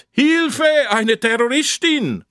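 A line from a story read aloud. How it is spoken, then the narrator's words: Someone calling out. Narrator (German): Und einer ruft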